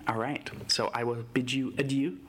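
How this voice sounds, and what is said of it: Weird put-on French accent. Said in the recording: “I just tried to do that weird French accent right there.”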